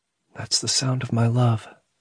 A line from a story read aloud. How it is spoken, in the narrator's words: he heard her whisper